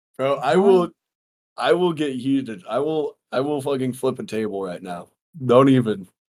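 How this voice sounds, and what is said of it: Hoarse voice. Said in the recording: “I have a fucking hoarse voice”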